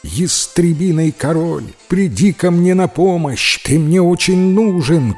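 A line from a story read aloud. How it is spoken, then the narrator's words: Shout. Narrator (Russian): крикнул Шарль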